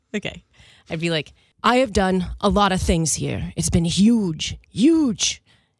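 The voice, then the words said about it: Imitates another person's voice. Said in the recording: “your Donald Trump impression”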